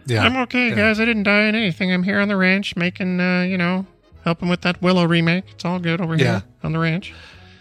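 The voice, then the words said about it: Imitates another person's voice. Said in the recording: “My impression of George Lucas”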